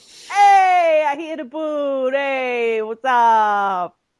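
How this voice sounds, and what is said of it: Put-on mixed Italian-American style accent. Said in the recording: “I'm not even sure what blend of accents that is ... it's the Midwest version of what Little Italy should sound like ... the Kentucky version of Worcester Street here in New Haven”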